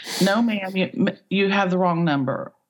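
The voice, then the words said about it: Attempted Southern accent. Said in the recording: “I cannot do a Southern accent, but I'm going to try”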